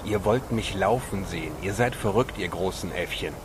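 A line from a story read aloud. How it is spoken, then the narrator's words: Hissing snarl. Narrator (German): fauchte Pancho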